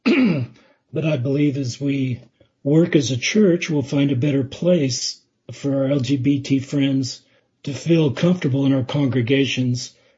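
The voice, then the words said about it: Strained, fading hoarse voice. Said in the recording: “sorry, I'm losing my voice”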